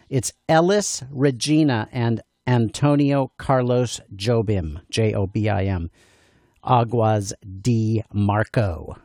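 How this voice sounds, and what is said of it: Deliberately anglicized American pronunciation. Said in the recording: “I'm going to say it with an American accent so you know what to search for ... now I'll try to pronounce a little better”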